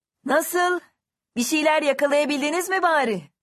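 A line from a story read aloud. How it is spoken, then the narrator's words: Man shouting toward others. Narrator (Turkish): diye bağırdı adam onlara doğru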